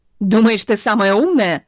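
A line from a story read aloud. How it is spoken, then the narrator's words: Shout. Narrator (Russian): кричала она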